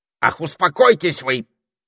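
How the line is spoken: Angry snap, parrot. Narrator (Russian): сердито огрызнулся попугай

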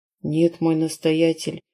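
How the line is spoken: Quiet messenger reply. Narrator (Russian): тихо ответил вестник

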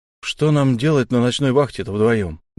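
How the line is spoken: Muttering. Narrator (Russian): буркнул Фари

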